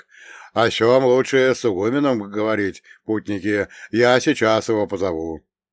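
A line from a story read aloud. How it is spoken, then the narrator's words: Priest booming. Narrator (Russian): Вновь прогудел священник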